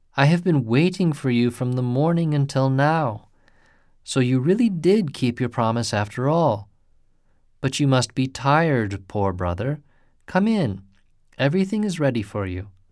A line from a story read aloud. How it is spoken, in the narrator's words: cried Hasebe